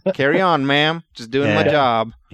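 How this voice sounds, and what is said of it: Earnest, mild country accent Superman. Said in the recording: “with like a really earnest, mild country accent ... Clark Kent with a country accent”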